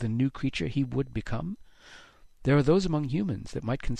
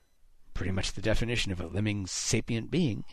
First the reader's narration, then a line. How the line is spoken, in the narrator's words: Haddix muttered